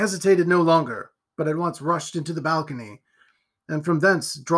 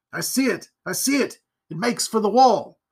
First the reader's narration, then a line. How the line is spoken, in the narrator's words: Marchdale was heard exclaiming aloud